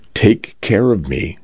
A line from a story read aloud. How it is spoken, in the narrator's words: she'd said